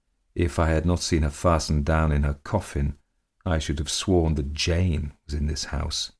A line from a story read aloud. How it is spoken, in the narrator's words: he muttered